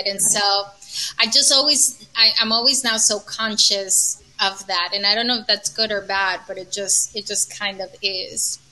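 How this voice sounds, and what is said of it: New York accent. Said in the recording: “you have like the cutest accent. It's like the perfect mixture of like New York.”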